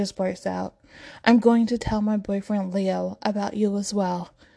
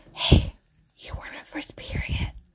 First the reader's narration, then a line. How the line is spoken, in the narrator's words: Leo whispers